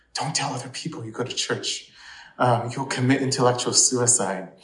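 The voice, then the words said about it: Very whispery voice. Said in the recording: “in a very whispery voice,”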